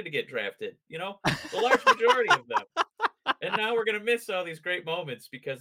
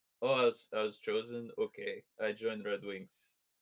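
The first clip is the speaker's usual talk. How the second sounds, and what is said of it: Put-on Russian-sounding accent. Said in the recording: “did you just give Nate Danielson a Russian accent? ... that was a general speaking hockey draftee”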